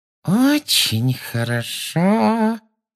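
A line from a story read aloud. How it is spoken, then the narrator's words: Menacing sugary voice. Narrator (Russian): сказала она своим самым угрожающим приторным голоском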